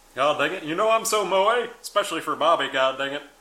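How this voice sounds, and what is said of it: Hank Hill cartoon character impression. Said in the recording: “I can do a mean Hank Hill impersonation”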